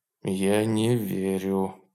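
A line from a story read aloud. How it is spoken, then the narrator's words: Muttered. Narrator (Russian): пробормотал сэр Томас Капарелли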